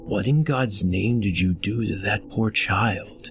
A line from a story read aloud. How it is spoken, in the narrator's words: Wallace's partner whispered